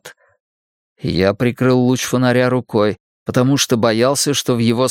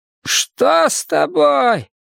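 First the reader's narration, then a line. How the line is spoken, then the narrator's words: Shouted. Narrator (Russian): крикнул он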